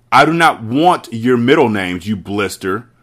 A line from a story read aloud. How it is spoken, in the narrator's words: the Gorgon bellowed